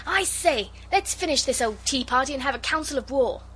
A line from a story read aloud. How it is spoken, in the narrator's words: Noel interrupted and cried out